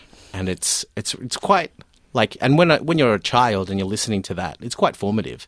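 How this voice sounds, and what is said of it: Strong Australian accent. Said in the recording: “I've always had this a strong Australian accent ... So my accent becomes like this. This is just the normal way I speak.”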